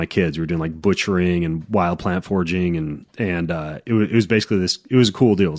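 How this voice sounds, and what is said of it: Slightly congested voice. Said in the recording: “you might even hear it in my voice a little bit, like I'm slightly congested ... So I came back kind of congested.”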